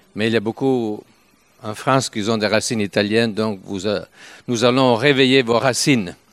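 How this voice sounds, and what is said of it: Italian accent speaking French. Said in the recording (French): “l'accent, vous comprenez d'où on vient, parce que nous sommes italiens ... je ne peux pas quitter mon accent italien”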